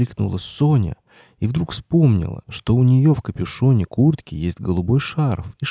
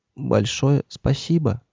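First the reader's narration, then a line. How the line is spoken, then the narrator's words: Whispered. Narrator (Russian): прошептал он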